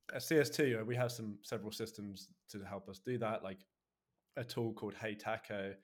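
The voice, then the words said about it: Hard-to-understand accent. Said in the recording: “for everyone who can't understand ... accent,”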